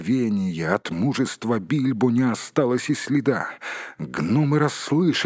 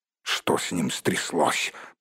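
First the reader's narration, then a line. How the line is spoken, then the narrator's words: Grumbling. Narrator (Russian): проворчал Торин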